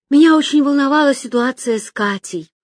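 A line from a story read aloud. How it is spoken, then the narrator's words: Sigh. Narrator (Russian): вздохнула Соня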